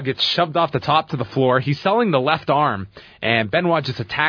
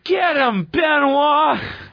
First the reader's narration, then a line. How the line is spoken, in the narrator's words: Stephanie with Bischoff, who yells